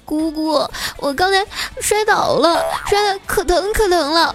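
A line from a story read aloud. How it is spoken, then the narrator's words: Crying child. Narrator (Chinese): 小侄女哭着对我说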